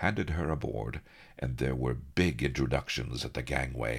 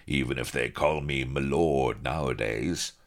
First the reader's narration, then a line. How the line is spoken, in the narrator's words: chuckled the Admiral, bluff as anything